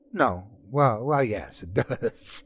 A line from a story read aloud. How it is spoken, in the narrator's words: he giggled